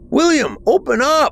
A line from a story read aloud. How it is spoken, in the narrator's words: I shouted